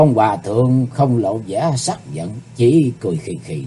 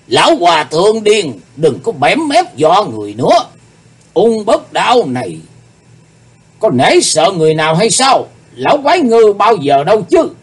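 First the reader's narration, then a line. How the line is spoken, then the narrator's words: Demonic roaring voice. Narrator (Vietnamese): Ung Bất Đan nói với giọng như quỷ rống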